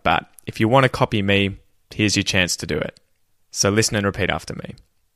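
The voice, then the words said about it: Australian accent. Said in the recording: “mimic my accent perfectly if you're after an Australian accent”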